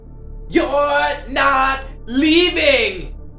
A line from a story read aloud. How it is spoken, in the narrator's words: the screech, and I mean screech of